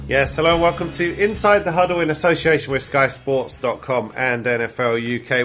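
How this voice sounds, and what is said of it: Congested, bunged-up voice with sniffling. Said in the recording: “I'm your bunged-up host. I've got a cold, sniffling my way through it.”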